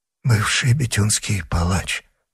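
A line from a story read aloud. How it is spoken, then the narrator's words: Mumbling while recalling. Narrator (Russian): пробормотал, напрягая память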